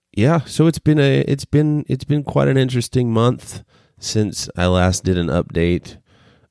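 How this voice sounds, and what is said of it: Hoarse, froggy voice from illness. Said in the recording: “you may tell from my voice that I'm a little sick ... I'm a little froggy”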